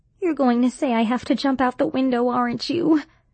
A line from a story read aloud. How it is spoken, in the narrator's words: She asked miserably